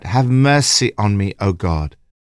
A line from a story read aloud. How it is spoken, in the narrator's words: David cried out